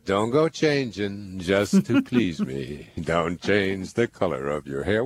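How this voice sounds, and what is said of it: Sung imitation of another person's voice. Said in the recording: “my Billy Joel impersonation”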